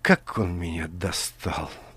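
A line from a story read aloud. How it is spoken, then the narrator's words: Muttered under breath. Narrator (Russian): пробормотала Алиса себе под нос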